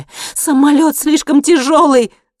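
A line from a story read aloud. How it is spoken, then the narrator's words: Shouting. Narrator (Russian): закричала Анника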